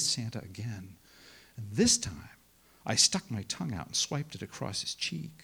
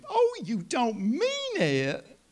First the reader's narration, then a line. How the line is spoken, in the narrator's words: My grandmother's high-pitched, delighted squeal